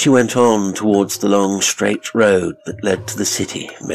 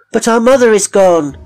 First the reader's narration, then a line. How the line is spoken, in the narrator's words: the children cried